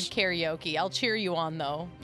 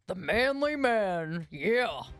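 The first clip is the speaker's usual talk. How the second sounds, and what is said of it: Put-on deep manly voice. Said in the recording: “that's your man voice again ... that is a really good voice”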